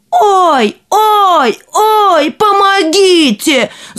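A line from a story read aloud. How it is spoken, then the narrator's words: Emperor shouting. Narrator (Russian): закричал император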